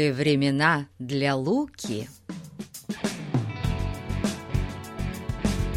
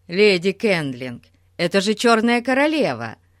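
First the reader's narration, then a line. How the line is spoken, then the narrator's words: Joyful. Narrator (Russian): радостно промолвил Ларри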